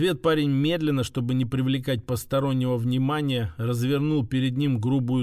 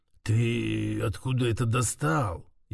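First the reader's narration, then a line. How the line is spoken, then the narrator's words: Low, slightly hoarse. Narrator (Russian): Его голос стал низким и даже чуть хриплым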